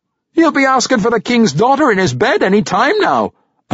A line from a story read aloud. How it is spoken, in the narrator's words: roared, and the laughter grew